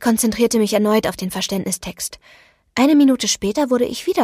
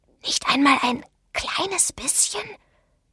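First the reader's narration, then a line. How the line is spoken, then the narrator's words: Whisper. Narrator (German): flüsterte Douglas Benson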